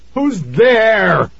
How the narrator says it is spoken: He screamed again

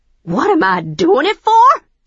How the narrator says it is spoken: She screeched

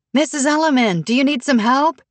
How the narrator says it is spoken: Natalie rolled down the window and yelled

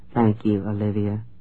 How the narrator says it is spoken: she murmured

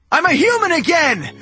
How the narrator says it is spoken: I shouted

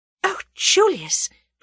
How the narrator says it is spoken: breathed Tuppence

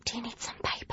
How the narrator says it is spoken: I whispered to her

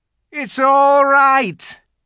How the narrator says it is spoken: he was shouting

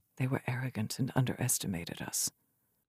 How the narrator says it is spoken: she said in a quiet voice so that only Ledros could hear

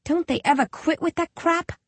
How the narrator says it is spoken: I groan

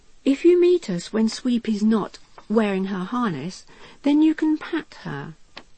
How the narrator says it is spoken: she would add kindly

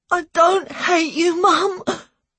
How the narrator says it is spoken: I cried

